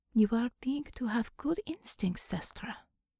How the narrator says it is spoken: the Russian doctor said warmly

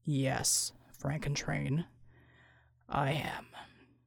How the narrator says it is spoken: Bulwark rumbled

